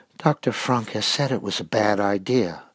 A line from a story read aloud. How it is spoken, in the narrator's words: whispered